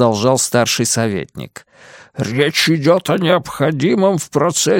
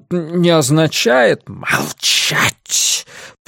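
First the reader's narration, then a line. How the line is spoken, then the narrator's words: Hiss. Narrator (Russian): прошипел Иберриус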